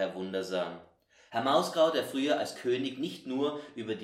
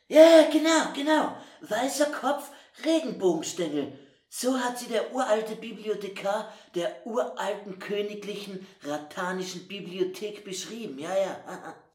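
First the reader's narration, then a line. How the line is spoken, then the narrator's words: Called out. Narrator (German): Herr Mausgau rief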